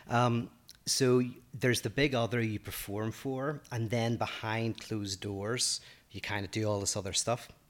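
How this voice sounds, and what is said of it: Northern Irish accent. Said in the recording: “I say it my Northern Irish accent”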